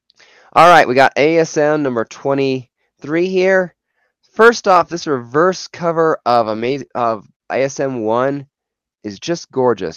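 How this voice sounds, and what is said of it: Voice sounds off, slightly sick. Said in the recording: “I'm fighting a bit of a cold. So my voice has been off and on for the last week.”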